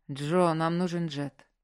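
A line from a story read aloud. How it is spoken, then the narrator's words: Tired. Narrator (Russian): устало сказал Маркус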